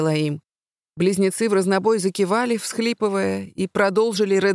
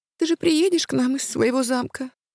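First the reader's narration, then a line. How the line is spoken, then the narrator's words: Thin child's voice near tears. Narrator (Russian): спросила младшая тонким голосом, готовым прерваться слезами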